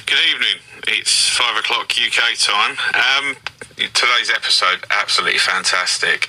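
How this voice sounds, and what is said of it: British regional accent. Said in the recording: “that accent tickles me”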